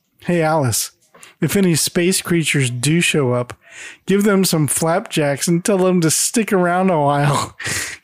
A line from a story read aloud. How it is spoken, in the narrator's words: Marcia giggles at Greg's joke and adds